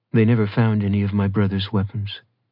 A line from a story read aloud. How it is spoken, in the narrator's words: Farouk Lane said